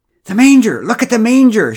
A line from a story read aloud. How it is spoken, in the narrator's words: shrieked Pamela